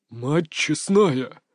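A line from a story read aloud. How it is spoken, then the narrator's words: Breathless exclamation. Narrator (Russian): выдохнул Эмиль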